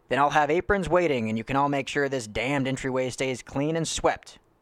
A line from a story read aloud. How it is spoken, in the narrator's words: Ned yelled conveniently